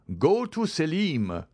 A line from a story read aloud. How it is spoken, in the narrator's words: cried my father